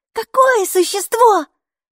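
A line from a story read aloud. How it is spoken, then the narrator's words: Exclamation. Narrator (Russian): воскликнула Майки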